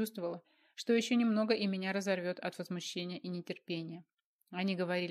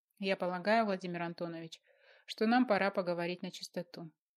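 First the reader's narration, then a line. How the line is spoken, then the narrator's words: Soft but insistent. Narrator (Russian): мягко, но настойчиво произнесла Маргарита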